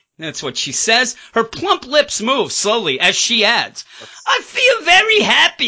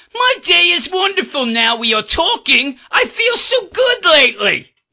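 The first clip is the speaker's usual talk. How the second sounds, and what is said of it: Put-on accent. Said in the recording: “I'll do it in the accent.”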